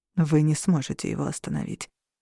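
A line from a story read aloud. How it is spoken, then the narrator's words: Whispered. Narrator (Russian): прошептал Орланд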